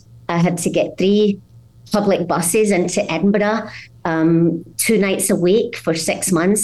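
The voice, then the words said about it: Scottish accent. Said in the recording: “without losing my Scottish accent”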